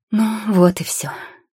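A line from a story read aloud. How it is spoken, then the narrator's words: Sigh. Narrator (Russian): зельеварша вздохнула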